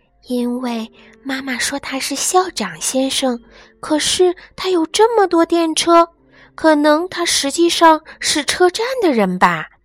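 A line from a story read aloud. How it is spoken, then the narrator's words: Even lower hushed voice. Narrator (Chinese): 小豆豆越发压低了声音说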